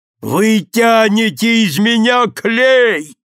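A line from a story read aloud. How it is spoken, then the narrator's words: Thunderous shout. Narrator (Russian): громовым голосом кричал мой дядька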